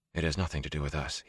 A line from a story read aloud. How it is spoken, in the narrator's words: he whispered